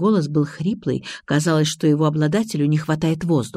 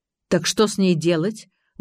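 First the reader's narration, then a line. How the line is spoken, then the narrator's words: Indignant question. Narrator (Russian): возмущенно спросил первый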